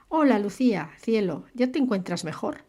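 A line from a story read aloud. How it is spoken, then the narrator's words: Jovial, solicitous question. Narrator (Spanish): preguntó en un tono de jovial solicitud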